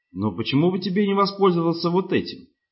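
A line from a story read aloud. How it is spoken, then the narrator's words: Suppressed crazed laughter. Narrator (Russian): Руис подавил еще один взрыв безумного хохота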